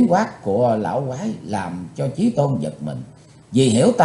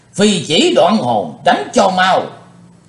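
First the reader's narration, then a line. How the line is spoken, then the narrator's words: Loud shout. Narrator (Vietnamese): Quái lão tam môn thần quát lớn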